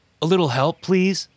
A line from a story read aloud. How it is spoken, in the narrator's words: he called out to me